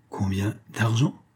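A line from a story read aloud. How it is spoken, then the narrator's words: Stammering, excited. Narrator (French): balbutia Doudou, avec un chatouillement au cœur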